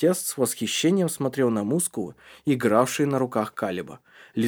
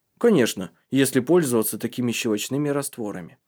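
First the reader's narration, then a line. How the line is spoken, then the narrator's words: Plain. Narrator (Russian): сказал Калиб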